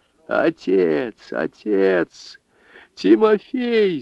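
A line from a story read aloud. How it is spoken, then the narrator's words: Old woman moaning. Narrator (Russian): стонала старуха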